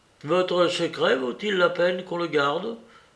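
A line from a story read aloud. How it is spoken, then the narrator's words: Less sullen tone. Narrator (French): demandai-je d'un ton moins maussade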